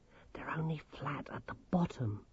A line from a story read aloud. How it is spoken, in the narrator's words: whispered Grimmer in their hiding place in the bushes